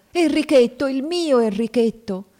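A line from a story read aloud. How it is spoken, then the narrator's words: Shrieking. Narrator (Italian): strillando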